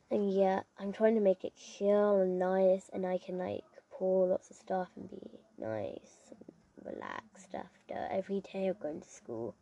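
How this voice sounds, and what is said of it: English accent. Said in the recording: “from England, as you can see from the accent”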